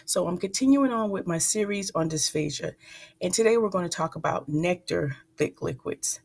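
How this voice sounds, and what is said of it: Slightly raspy, froggy voice. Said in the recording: “My voice is still slightly raspy, ... excuse any future coughs or frogginess”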